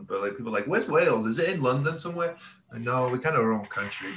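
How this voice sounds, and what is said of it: Welsh accent. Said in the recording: “People get confused by my accent a lot because it's not Scottish, it's not Irish. I'm Welsh ... my accent's a little weird. I get Australian all the time. Australian, South African, more than UK ... It sounds a little bit harsher than like a South African.”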